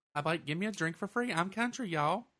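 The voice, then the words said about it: Exaggerated Southern country accent. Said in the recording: “use my country accent”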